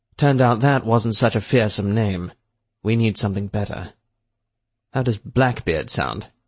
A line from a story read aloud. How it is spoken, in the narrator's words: Barker chuckled at this